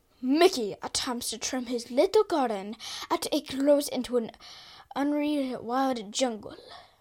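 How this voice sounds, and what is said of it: Announcer voice drifting into accent. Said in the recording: “In your best announcer voice ... You started off so strong and then somehow went into an accent ... It was an evolving announcer voice”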